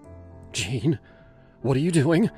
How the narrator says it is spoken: she asked, her voice sharp with fear

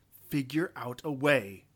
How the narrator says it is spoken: Isra snapped

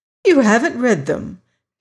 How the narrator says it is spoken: she exclaimed

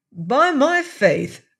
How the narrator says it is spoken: cried Boots

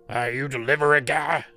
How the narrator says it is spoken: he barked at me

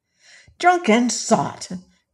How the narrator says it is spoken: cried she

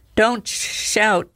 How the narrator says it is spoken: she groaned

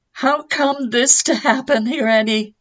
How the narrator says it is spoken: cried

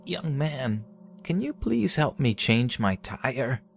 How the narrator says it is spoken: In an old cracking voice, she said

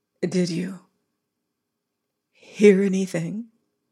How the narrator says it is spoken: she asked in a low voice

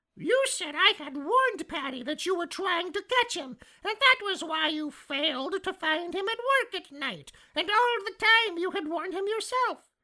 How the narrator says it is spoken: screamed Sammy

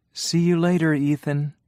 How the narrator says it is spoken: she said happily

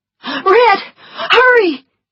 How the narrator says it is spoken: she shouted

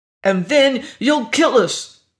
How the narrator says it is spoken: Augie said hotly

